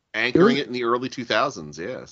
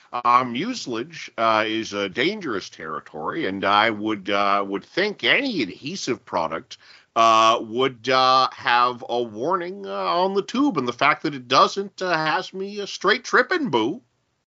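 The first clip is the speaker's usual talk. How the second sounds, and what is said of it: Imitates another person's voice. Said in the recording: “very good with your Eugene Levy impersonation”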